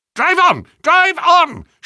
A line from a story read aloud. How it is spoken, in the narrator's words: shrieked a harsh voice